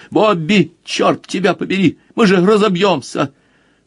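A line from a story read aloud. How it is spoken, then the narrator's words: Genuinely angry shout. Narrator (Russian): Бриджит крикнул уже с непритворной злостью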